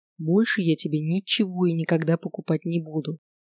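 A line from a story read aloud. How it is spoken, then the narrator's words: Barely audible whisper in ear. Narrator (Russian): еле слышно шепнул он ей на ухо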